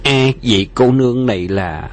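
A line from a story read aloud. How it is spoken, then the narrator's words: Smiling. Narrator (Vietnamese): Bạc Phong Hàn mỉm cười nói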